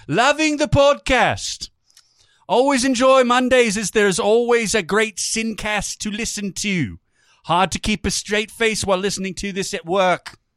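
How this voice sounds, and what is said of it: Fake British accent. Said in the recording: “I'm going to do this, the rest of it, in my faux British accent.”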